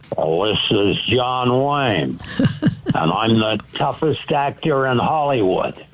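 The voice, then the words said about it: John Wayne impression. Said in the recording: “you're a great John Wayne impersonator.”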